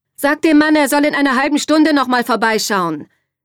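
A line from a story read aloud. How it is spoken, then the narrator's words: Call toward stairs. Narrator (German): rief Katharina in Richtung Treppe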